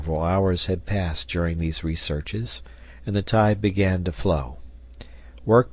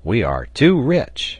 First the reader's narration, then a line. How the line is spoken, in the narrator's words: exclaimed Pencroft